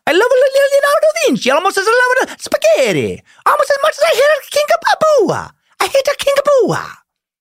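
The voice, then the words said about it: Bad cartoonish Italian accent. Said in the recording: “slipping into a bad, cartoonish Italian uh, stereotypical accent based only on the Mario Brothers”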